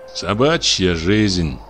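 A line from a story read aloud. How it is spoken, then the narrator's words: Grumbling. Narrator (Russian): проворчал почтальон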